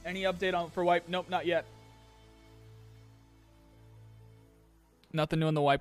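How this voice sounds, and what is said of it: Strained, hoarse voice. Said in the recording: “I'm losing my voice. This isn't good. ... I'm so losing my voice today. ... I'm definitely losing my voice today.”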